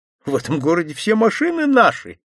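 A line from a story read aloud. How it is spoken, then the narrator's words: Laughing. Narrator (Russian): засмеялся Глеб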